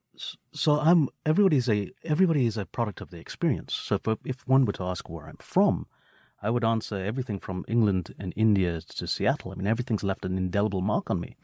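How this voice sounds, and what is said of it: Impressive accent, sounds smart. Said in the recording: “your incredible accent, because you could say pretty much anything and you sound really amazing and smart”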